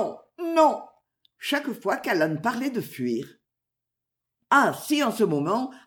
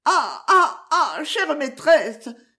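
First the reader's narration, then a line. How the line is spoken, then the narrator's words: Sobbing cry. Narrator (French): s'écria Maud avec des sanglots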